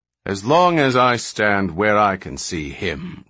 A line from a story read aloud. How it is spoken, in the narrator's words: retorted his brother bitterly